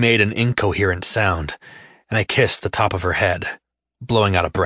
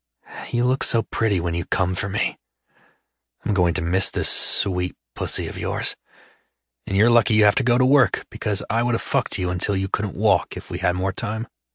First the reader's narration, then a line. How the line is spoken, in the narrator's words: murmured in her ear